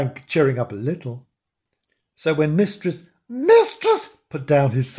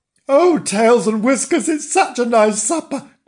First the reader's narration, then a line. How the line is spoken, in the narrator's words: groaned Frank